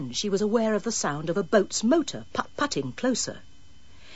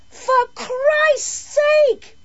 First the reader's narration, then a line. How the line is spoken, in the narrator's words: bawled Carol